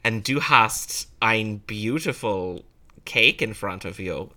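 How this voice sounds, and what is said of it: Half-hearted put-on German accent. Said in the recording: “there's gonna be a lot of like half-hearted German accents going on here”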